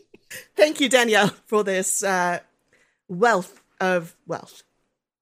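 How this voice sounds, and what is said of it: Put-on posh wealthy English accent. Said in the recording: “made me considerably wealthier, as you can hear from the change in my accent”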